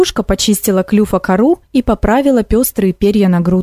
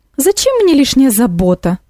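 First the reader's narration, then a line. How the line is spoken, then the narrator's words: Exclaiming. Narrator (Russian): воскликнула кукушка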